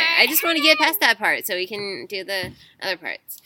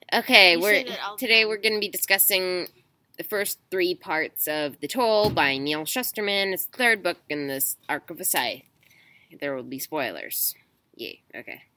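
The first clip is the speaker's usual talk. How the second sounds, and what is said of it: Flat, bored-sounding delivery. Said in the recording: “You sound bored. ... You do sound bored.”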